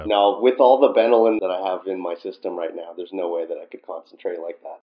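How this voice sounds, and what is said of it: Canadian accent. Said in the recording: “I'm going to be listening for the Canadian accent. ... Oh, I can already hear some of it.”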